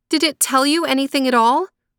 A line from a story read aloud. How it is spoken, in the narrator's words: cried out Gerda